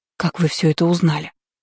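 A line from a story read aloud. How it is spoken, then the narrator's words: Stunned breathless. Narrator (Russian): Ошарашенно выдохнула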